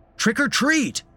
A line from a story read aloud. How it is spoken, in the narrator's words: he shouted